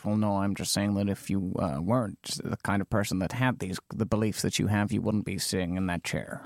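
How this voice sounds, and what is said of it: Imitates another person's voice. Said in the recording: “my Noam Chomsky impression, with which I am pleased.”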